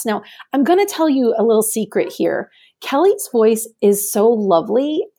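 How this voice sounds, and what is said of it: Raspy voice. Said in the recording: “I have this raspy voice. I have these nodules on my vocal cords. ... despite my raspy voice”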